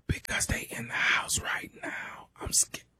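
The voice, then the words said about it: Quiet, scared whisper. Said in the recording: “Man, speak up. I can't hear you... why the hell are you whispering?”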